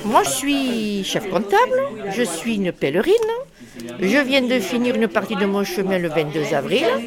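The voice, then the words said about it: Marseille southern French accent. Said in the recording (French): “je viens de Marseille. ... C'est ça ce petit accent”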